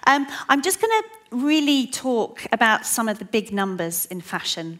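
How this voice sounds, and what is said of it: Fast speech with an accent. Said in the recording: “I do talk quite fast, and I do have an accent”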